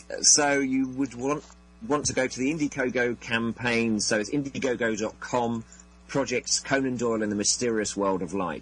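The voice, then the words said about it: English accent. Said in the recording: “I just hear the English accent ... it always just sounds so much better coming out of an English accent than it does coming out of our South Coast Boston area accents.”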